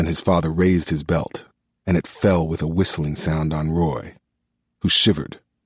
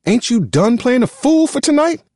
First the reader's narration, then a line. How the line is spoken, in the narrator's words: cried Aunt Florence